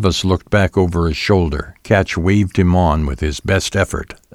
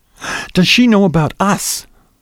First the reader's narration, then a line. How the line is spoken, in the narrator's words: Her voice was more insistent now, with a tinge of jealousy